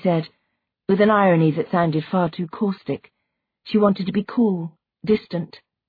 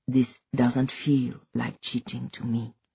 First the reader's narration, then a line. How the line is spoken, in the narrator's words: he said quietly